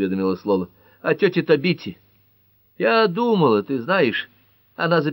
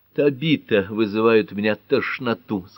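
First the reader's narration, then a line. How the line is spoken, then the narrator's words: Plain. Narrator (Russian): сказала Гермиона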